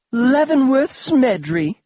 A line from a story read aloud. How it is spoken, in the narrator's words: a vivacious feminine voice squealed